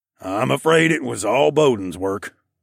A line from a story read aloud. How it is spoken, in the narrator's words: Mel grunted modestly